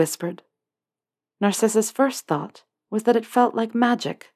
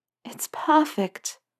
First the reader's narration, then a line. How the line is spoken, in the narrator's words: Hermione breathed